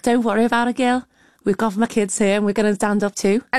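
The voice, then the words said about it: Very good put-on Liverpool accent. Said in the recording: “that was a very good Liverpool accent”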